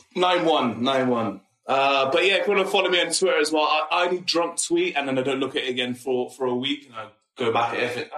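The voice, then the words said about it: Speaks with a regional accent. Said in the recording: “That's my accent.”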